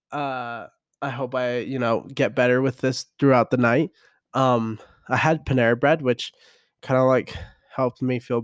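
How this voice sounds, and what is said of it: Hoarse, sick-sounding voice. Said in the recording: “excuse my voice ... I'm getting out of a cold”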